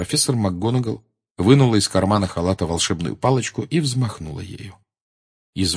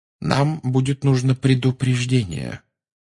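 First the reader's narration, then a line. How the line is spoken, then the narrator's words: Very calm. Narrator (Russian): очень спокойно сказал Дамблдор птице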